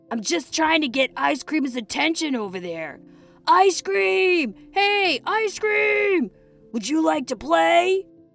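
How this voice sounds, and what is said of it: Loud yelling, screaming voice. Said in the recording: “yelled Waffle ... Can you keep your voice down and stop screaming?”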